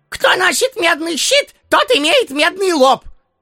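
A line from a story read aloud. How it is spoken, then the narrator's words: Constant shouting. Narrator (Russian): ростовщик беспрерывно кричал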